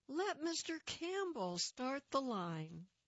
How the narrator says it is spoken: someone called out

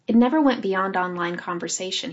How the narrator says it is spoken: he said

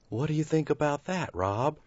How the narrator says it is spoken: He asked softly

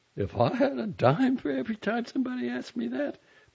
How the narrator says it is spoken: my mother said, laughing

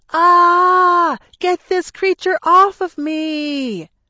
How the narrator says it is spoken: Mom screamed

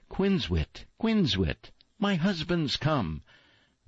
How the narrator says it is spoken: the swallows cried

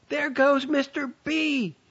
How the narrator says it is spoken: shouted

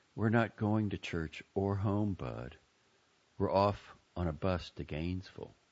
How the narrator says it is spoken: said gently

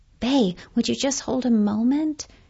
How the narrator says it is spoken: His voice was getting exasperated now, bladed

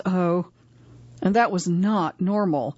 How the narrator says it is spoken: sighs and goes

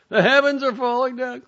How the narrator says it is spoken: cried the little red hen

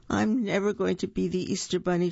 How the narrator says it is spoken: she moaned

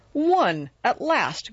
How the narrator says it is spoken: cried Jude

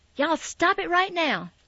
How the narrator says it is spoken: Mama snapped, and she seemed suddenly surprised at herself for losing patience with me already

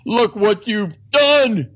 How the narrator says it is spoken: cried Father Stone

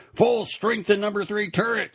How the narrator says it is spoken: shouted the commander

